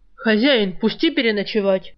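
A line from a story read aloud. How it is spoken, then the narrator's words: Menacing bark. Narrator (Russian): Тоном кошелек или жизнь гаркнул Жар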